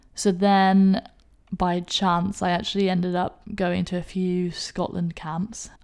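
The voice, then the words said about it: English accent. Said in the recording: “I'm not Scottish at all, if you can't tell from my accent ... I'm actually more Scottish than I am English, despite the accent.”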